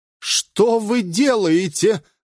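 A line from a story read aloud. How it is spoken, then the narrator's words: Shouted. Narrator (Russian): закричал Авдеев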